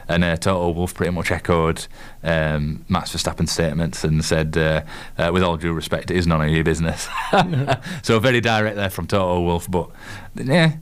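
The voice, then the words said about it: Yorkshire English accent. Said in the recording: “my miserable Yorkshire accent ... I like your miserable Yorkshire accent.”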